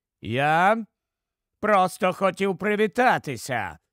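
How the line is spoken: Cold explanation. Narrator (Ukrainian): холодно пояснив Траверс

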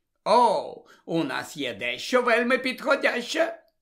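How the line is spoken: Exclamation. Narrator (Ukrainian): вигукнув Джонс

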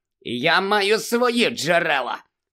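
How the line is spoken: Smug hiss. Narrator (Ukrainian): самовдоволено просичав Філч

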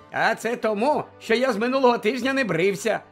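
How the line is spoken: Cheerful explanation. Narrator (Ukrainian): радісно пояснив

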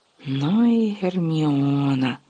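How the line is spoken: Whisper. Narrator (Ukrainian): прошепотів Гаррі

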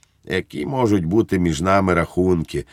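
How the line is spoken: Gentle. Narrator (Ukrainian): лагідно сказав Благнік

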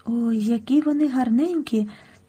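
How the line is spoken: Boy's whisper. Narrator (Ukrainian): прошепотів хтось із хлопчиків

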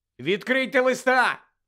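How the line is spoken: Shouted. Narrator (Ukrainian): крикнув їм Гаррі

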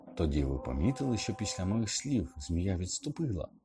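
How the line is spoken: Plain. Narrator (Ukrainian): запитав Гаррі

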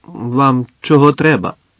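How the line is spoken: Grumbled. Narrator (Ukrainian): буркнув

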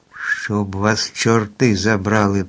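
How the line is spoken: Groan. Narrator (Ukrainian): простогнав

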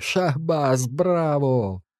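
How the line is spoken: Guards whistling and laughing. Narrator (Ukrainian): Охоронці присвистували та сміялися

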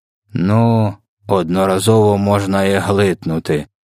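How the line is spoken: Grumbled. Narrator (Ukrainian): буркнув кровопопивач

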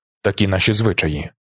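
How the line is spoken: Mutter. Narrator (Ukrainian): пробурмотів

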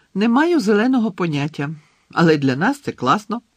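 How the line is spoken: Joyful. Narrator (Ukrainian): радісно сказала Джинні

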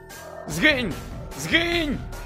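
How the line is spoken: Shouted. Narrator (Ukrainian): закричав Парк

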